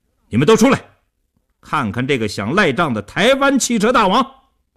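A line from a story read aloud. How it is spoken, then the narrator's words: Fierce raised-voice shout. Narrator (Chinese): 叶成坚恶狠狠地提高声音对里屋喊道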